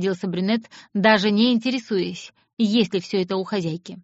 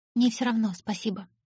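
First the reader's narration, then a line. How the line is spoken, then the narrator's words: Quiet reply. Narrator (Russian): тихо ответила девушка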